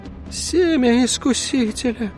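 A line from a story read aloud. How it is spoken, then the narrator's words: Groaning. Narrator (Russian): простонал отец Даниэль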